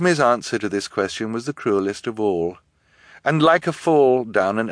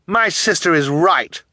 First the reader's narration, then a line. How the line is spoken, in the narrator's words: Violet cried